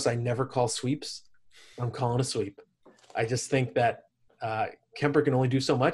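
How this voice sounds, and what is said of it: Hoarse, strained voice. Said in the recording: “I'm losing my voice here”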